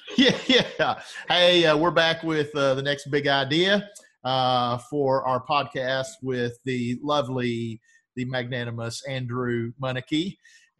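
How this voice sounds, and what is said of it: Thick Southern US accent. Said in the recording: “my thick, mush-mouth southern accent can't enunciate that very well”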